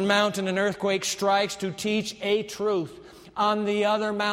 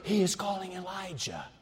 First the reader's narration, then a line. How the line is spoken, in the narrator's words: On the other mountain, they whisper